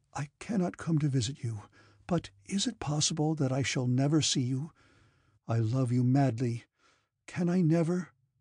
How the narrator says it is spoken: Anatole had taken her hand and said in a tender voice

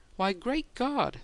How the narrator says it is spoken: the foreman exclaimed

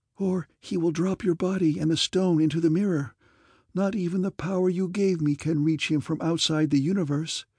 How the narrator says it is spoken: she urged anxiously

